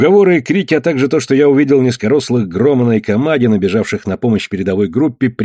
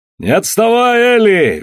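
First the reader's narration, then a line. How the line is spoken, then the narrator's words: Cheerful yelling. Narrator (Russian): весело орал Алан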